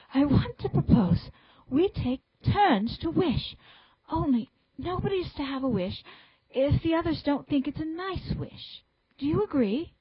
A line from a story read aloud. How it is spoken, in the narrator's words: Anthea, breathless from the scurry of that slipping, panted out